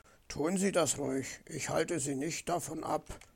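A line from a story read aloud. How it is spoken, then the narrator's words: Sullen mutter. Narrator (German): murmelte verdrießlich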